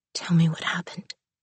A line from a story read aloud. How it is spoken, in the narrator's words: she whispered